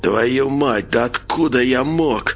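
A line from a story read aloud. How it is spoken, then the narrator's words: Hissed through battered lips. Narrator (Russian): прошипел Николай, едва шевеля разбитыми губами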